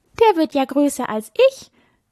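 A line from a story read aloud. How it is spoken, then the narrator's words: Little fawn laughing. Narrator (German): sagte das kleine Reh und lachte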